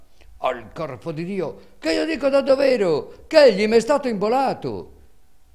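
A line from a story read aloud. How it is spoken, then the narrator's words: Shouting louder. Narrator (Italian): Calandrino gridava allora più forte e diceva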